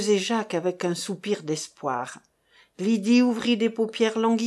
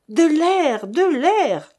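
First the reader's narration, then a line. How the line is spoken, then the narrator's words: Shouting. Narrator (French): cria Jacques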